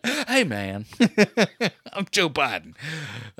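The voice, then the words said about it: Imitates another person's voice. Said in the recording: “my Joe Biden impression”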